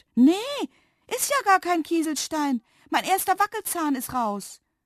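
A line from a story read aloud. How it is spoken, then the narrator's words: Astonished exclamation. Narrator (German): rief sie verblüfft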